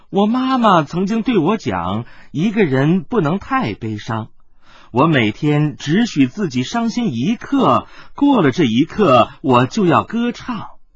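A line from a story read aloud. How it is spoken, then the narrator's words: Happy singing, laughing. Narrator (Chinese): 觉得更是开心，又笑着唱道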